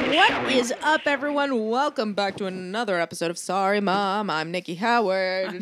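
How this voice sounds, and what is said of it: Usual voice. Nothing is said of it.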